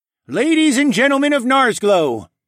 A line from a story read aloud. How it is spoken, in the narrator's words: Tecumseh bellowed